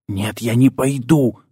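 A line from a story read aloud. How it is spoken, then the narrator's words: Hissed reply. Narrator (Russian): зашипели в ответ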